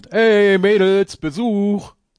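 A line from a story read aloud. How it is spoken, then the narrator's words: Call. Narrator (German): Semper ruft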